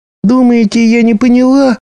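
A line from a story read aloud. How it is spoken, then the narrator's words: Sudden shout. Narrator (Russian): вдруг закричала Шаллах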